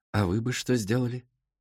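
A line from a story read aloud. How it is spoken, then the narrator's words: Very quiet, with pauses. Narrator (Russian): делал паузу и очень тихо спрашивал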